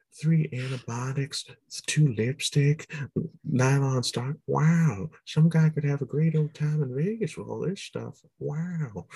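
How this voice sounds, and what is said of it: Owen Wilson impression. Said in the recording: “Well, Owen Wilson, what would it be? It would be like”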